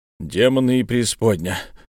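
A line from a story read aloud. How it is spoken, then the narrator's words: Growl through teeth. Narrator (Russian): рыкнул сквозь зубы Дюпон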